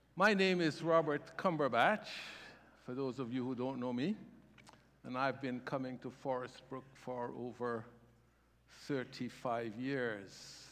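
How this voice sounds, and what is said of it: Warm, lovely accent. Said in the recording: “I have an accent... when I go to the Caribbean, it disappears... it's a warm and lovely accent”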